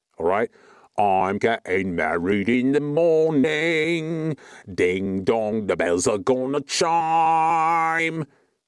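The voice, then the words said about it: Put-on British accent. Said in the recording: “You need a better accent impersonator on your face mask. 3 out of 10. ... I've got the perfect British accent”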